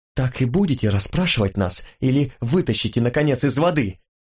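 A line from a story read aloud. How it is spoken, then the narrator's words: Impatient hiss. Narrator (Russian): зашипела, теряя терпение, Джия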